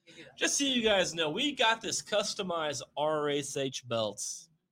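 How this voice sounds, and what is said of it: Slight twang accent. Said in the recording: “I got my little twang in there. It's coming out a little bit.”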